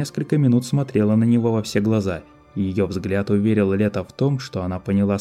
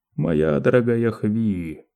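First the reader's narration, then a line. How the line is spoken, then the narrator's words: Quiet. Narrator (Russian): тихо произнес он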